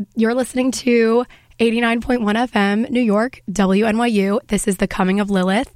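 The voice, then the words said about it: Hoarse, nearly lost voice. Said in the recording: “even though my voice is gone”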